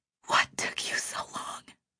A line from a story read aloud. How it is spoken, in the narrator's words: she whispered